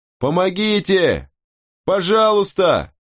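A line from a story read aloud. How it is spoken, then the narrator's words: Frightened scream. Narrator (Russian): Я в страхе закричал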